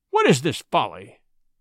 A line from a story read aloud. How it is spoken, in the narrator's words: said Buldeo angrily